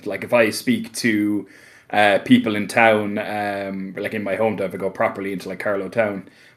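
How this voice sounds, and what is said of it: Light Irish accent. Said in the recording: “the Irish accent ... accent is just so nice to listen to ... by Irish standards, I'm actually considered to have quite a light accent”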